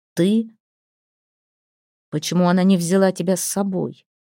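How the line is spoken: Plain. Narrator (Russian): спросил Торвард

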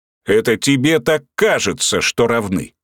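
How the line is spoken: Cossack barking. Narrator (Russian): рявкнул казак

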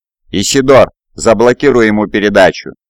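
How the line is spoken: Barked order. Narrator (Russian): рявкнул сержант

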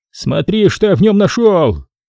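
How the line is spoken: Yelling. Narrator (Russian): Он ... орал

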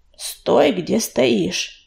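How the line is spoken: Growling. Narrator (Russian): прорычал

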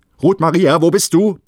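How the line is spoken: Sudden frightened roar. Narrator (German): brüllte er unvermittelt, wie in plötzlicher Angst

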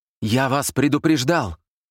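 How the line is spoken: Shout breaking into sobs. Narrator (Russian): крикнул он и зарыдал

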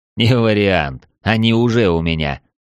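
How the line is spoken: Snorting. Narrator (Russian): фыркнул я

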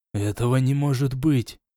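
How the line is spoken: Exclaiming. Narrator (Russian): воскликнул Дар

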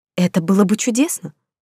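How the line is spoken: Exclaiming. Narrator (Russian): воскликнула я

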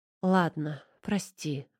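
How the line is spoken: Exhaled. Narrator (Russian): выдохнула

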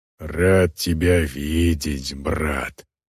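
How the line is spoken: Growling. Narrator (Russian): прорычал один из них

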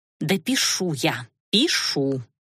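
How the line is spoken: Quiet hiss. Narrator (Russian): тихо зашипела Лана

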